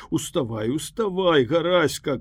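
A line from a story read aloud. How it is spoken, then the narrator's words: Guests shouting together. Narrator (Belarusian): крычалі госці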